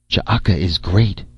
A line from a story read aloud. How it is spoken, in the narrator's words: she whispered